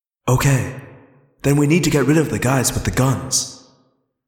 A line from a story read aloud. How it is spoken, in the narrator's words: Rachel said calmly